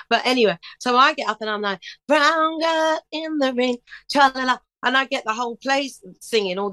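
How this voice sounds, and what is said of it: Usual voice. Nothing is said of it.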